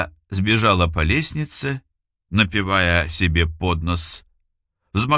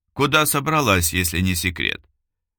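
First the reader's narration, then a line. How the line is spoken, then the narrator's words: Indifferent inquiry. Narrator (Russian): Безразличным тоном осведомилась Лара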